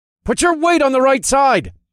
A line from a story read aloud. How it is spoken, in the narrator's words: I called out